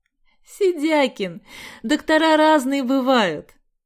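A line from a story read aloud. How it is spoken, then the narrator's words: Forced out through laughter. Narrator (Russian): Сквозь смех выдавила из себя Галя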